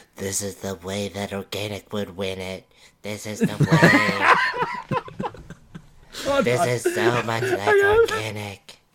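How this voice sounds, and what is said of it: Imitates another person's voice. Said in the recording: “best fucking impression of Ryan”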